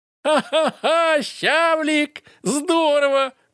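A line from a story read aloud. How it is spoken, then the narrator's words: Loud laughter. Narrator (Russian): громко засмеялся Толик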